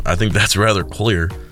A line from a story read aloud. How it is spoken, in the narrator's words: Isaac chuckled